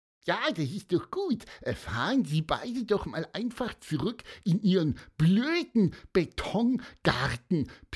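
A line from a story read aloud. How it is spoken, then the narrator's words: Squeaky piping voice. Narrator (German): piepste Pieper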